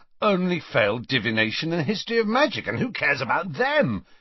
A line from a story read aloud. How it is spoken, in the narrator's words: he said happily to Harry